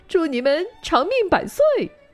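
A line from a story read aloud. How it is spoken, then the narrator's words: Shouting soldier. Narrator (Chinese): 士兵 喊道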